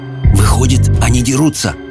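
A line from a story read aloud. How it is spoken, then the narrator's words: Whispered. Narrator (Russian): прошептал Майкл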